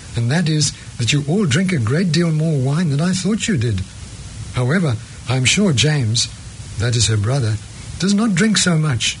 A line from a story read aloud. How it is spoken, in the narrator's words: said Catherine warmly